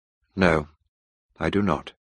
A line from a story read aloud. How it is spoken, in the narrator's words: I replied coldly